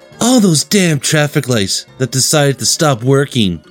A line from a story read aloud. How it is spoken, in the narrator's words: whined Chase